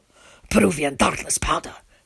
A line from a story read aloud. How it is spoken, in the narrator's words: the man whispers in my ear